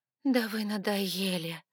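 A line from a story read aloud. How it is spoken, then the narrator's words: Faint, breathless voice. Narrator (Russian): выдохнула я слабым до неузнаваемости голосом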